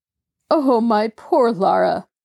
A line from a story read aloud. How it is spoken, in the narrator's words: Jacob Aborn groaned